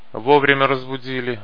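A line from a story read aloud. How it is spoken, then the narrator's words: Grumbled to himself. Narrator (Russian): ворчал про себя погон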